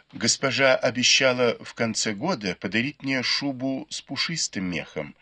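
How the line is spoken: Plain. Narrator (Russian): ответила Сижень

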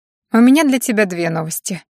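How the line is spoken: Smirking grunt. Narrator (Russian): хмыкнула Аня

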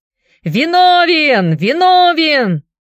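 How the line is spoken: Approving laughing shouts. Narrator (Russian): Присутствующие одобрительно рассмеялись и заорали

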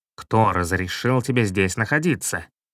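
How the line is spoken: Angry stern question. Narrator (Russian): Он очень рассердился, строго спросил

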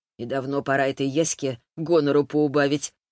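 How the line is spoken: Scoffing reply. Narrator (Russian): хмыкнул кто-то в ответ

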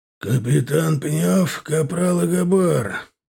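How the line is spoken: Hoarse creak, sore throat. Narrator (Russian): проскрипел застуженным горлом полковник

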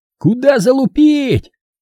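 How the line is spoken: Soldier yelling from afar. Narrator (Russian): моторно заорал из пулеметного гнезда на крышу штаба бригады ВВшный боец

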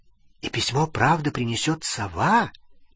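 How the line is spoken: Quiet question. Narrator (Russian): тихо спросила Лили

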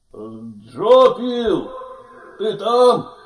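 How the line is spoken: Shouting. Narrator (Russian): он закричал снова

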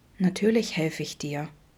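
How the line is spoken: Soft, gentle voice. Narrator (German): sagte Vincent leise, ganz sanft

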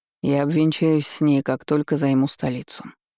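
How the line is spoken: Prince's dry reply. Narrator (Russian): сухо ответил принц

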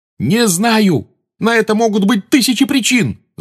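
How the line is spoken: Yelling. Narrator (Russian): завопил на нее Гарри

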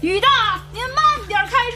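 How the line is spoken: Shouting in rain. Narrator (Chinese): 王大磊站在大雨中对师傅喊着

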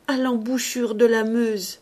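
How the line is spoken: Stammered. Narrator (French): Ursus balbutia

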